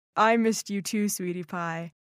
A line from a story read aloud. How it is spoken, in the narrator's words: he laughed and said